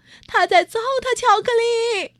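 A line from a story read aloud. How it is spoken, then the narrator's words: Shouting. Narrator (Chinese): 讲解员喊道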